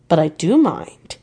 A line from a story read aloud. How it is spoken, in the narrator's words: he answered